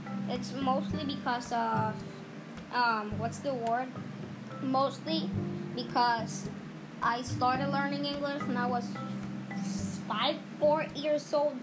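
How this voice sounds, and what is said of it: Latin American accent in English. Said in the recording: “Latin Americans, have the accent, because we don't speak English, and I have this accent”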